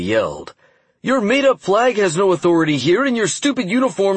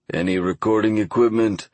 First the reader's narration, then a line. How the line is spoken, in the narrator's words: the man asked, a strong but unplaceable accent in his gruff voice